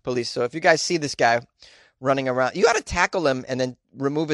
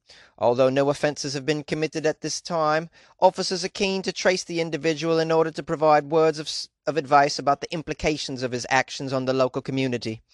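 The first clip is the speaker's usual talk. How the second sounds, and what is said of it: Put-on accent reading a statement. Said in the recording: “Is this accent any good at all?”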